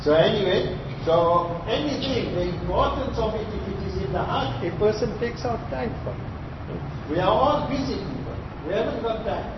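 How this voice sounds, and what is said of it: South African accent. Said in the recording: “My accent is different, South African accent”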